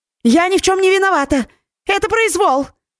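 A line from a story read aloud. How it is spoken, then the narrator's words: Panicked scream when seized. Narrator (Russian): завопила, когда ее схватил один из стражников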